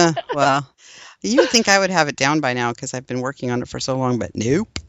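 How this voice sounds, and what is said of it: Usual voice. Nothing is said of it.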